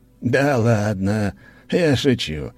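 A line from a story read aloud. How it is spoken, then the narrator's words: Cheerful laugh. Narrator (Russian): Аркадий весело засмеялся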